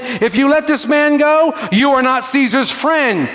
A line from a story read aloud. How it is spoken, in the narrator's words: the Jews cried out, saying